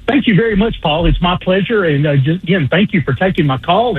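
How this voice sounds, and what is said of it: Southern Alabama accent. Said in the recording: “a Baldwin County, Alabama accent”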